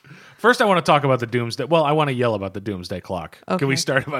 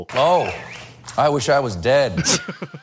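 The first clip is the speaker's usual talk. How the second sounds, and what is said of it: Imitates another person's voice. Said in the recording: “My impression of Philip K. Dick in junior high school.”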